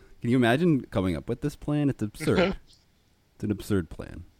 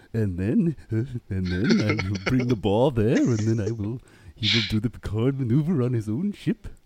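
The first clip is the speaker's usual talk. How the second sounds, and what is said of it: Imitates another person's voice. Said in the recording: “that was a good impression of Frank Corsentino”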